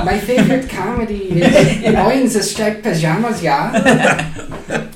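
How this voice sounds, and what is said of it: Soft, feminine put-on German accent. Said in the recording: “your German accent is very, very soft. ... It's almost like a gay German accent. ... it's very feminine.”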